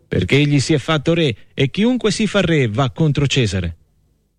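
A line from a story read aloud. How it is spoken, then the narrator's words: Crowd shouting. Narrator (Italian): gridava il popolo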